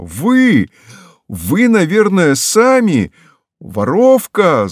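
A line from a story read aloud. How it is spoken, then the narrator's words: Shouting. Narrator (Russian): затопав ногами, выкрикнул Петя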